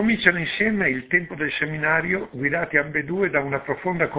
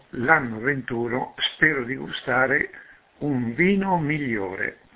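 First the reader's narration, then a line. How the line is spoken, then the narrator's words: Murmur. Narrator (Italian): ha mormorato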